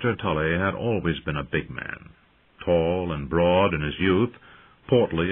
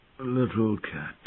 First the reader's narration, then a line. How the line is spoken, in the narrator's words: he murmured in a voice thin and wispy and racked by pain